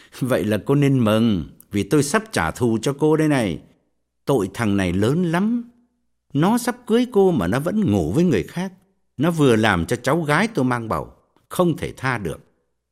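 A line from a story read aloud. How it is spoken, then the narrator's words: Sneering. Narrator (Vietnamese): cười khẩy, bảo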